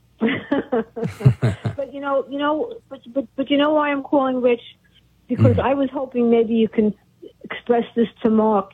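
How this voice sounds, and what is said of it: Brooklyn accent. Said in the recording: “I remember your voice. It sounds like you're from Brooklyn.”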